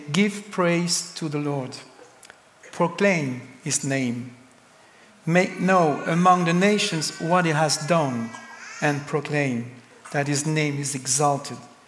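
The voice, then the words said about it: French accent. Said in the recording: “I have a French accent”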